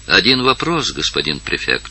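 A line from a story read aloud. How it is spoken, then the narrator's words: Quiet. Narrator (Russian): сказала она тихо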